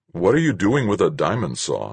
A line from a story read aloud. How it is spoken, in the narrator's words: I asked